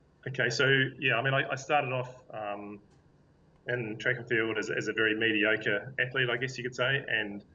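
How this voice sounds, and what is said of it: Speaker with an accent. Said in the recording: “you can understand my accent too ... It's great to have an accent on this show”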